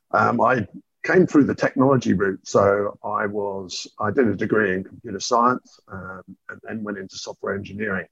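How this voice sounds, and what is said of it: British accent. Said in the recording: “most people can probably tell by my accent. ... I wasn't born in Australia. I was actually born in the UK.”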